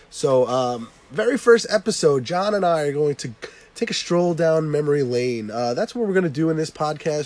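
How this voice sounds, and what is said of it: Voice sounds sick from a cold. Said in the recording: “I have a little bit of a cold, ... bear with my voice today ... when you have a horrible voice”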